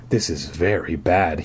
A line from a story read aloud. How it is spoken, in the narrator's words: he murmured, talking to himself